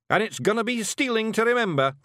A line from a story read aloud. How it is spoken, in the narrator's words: Rob yelled to another cheer